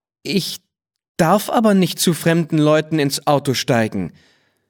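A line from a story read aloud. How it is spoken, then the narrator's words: Plain. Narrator (German): sagte Thomas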